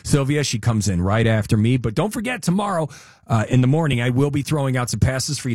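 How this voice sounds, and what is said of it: Hoarse voice. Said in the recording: “the hoarseness of my voice”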